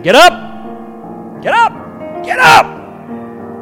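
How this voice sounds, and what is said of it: Shouting. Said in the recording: “God is somewhere shouting”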